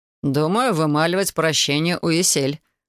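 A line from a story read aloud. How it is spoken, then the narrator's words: Snorting smirk. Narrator (Russian): хмыкнул Илай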